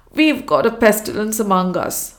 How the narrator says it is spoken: she declared, her foot tapping the ground angrily

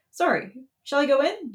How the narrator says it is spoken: You stammer

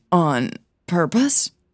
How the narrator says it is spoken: stammered

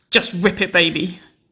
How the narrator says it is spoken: moaned

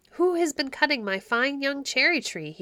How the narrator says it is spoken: cried

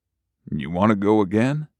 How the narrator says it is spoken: Ollie mumbled and smiled

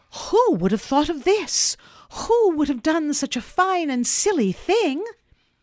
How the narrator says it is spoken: exclaim with delight

